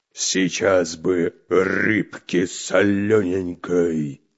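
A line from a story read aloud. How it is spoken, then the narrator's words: Hungry growl. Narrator (Russian): рычал голодный Буль-Буль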